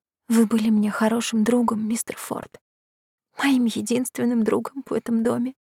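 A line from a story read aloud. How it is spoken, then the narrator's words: Tearful whisper. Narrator (Russian): прошептала я, глотая слезы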